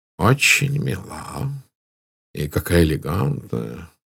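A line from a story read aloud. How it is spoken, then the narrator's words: Muttered. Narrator (Russian): пробормотал Пуаро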